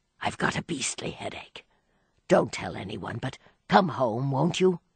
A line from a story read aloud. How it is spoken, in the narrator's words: he whispered